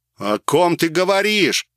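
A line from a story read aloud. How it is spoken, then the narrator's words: Roar. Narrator (Russian): взревел я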